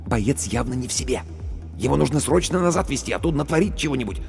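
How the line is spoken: Whisper. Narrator (Russian): Командир медотделения шепнул

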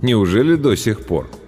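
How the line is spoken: Calm, ironic, light. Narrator (Russian): Дорохов придал своему голосу нотку иронии, и на самом деле все внутри него заледенело, а вот голос звучал спокойно, иронично, легко

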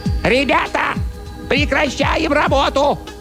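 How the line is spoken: Shrill squeaky shout. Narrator (Russian): тоненьким, писклявым, ну и так далее, голоском заорал

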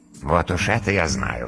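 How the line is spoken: Snorting dragon. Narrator (Russian): хмыкнул дракон

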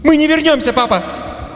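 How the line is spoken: Shouted. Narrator (Russian): Она выкрикнула эти слова

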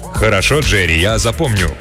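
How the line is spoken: Booming rumble. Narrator (Russian): прогудел Самсон

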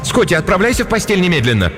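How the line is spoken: Repeated shout. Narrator (Russian): Кристин в 3-й раз крикнула

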